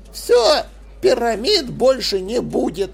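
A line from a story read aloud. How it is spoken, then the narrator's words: Angry grumble. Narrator (Russian): сердито проворчал Диль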